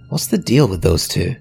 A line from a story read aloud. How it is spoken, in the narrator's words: Kaya asked